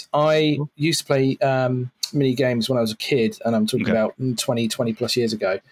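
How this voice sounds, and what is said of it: British accent. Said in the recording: “by my accent, you can tell I'm not from the States. I'm from the UK.”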